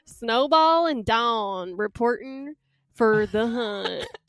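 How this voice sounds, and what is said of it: Put-on southern accent. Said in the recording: “a southern accent coming in halfway through the introduction ... I'm a redneck too”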